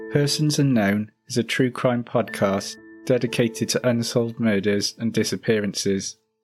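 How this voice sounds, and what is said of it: British accent. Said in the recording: “coming to you straight from the UK ... accented voices ... just a very different accent from ours.”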